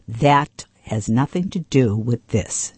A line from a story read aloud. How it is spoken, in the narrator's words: said sharply